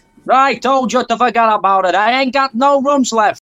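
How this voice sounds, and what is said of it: Put-on New York Jewish accent. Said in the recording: “What's the New York accent for? ... It's the only Jewish accent I can do.”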